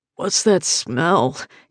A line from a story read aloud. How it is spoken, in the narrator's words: he grumbles